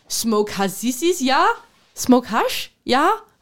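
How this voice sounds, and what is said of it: Imitated German accent. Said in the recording (Danish): “snakker han ja med den bedste tyske accent”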